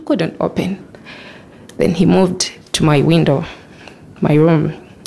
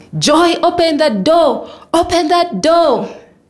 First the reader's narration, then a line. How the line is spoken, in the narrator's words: his brothers joined in, screaming